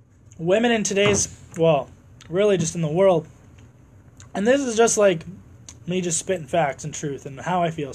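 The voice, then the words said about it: Hoarse, strained voice. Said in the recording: “Sorry guys, I'm losing my voice.”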